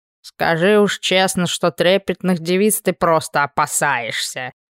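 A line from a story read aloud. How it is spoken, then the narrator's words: Muttered. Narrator (Russian): пробормотал орк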